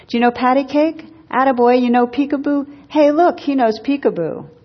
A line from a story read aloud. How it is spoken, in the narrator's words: the old bum was shouting from across the room